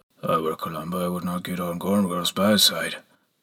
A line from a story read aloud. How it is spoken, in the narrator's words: I heard Brother Reuben murmur